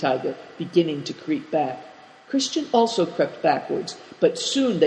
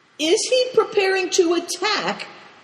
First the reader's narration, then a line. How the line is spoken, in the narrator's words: inquired Cao Cheng uneasily